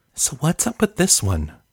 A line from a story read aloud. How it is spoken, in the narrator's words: she whispered to Mikey